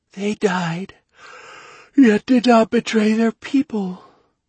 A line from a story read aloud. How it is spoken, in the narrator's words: drawled the girl, yawning